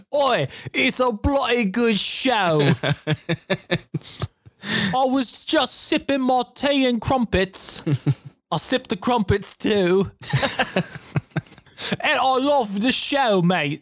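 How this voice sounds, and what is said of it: Poor put-on British/Australian accent. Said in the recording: “The worst impression ever. ... You're channeling the Outback man.”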